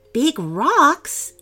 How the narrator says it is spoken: exclaimed James

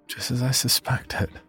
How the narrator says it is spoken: I said under my breath

